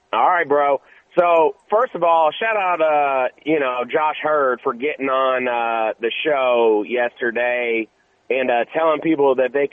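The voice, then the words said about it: Partly lost, hoarse voice. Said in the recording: “Lost my voice a little bit”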